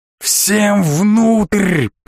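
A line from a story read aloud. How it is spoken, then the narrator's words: Roared from behind. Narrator (Russian): проревел чей-то голос за моей спиной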